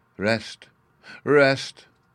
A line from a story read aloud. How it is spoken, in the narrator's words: broke off with a silvery laugh